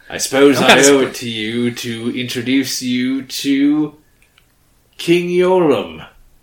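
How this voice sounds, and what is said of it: Put-on character accent. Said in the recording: “why do I talk like this now? ... I'm lots of accents ... Of course, I have to have a new accent.”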